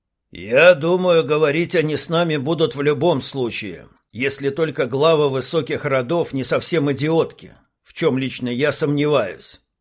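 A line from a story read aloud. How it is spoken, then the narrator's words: Plain. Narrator (Russian): ответил посол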